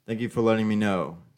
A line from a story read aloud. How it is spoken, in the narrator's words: Stephen says